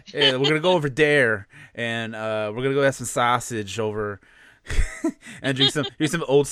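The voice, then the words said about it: Exaggerated stereotypical Chicago accent. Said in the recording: “that stereotypical like Chicagoan accent where sometimes I'll say words kind of strange ... that SNL sketch of Da Bears ... Everyone literally says, like, da, like, dare, da,”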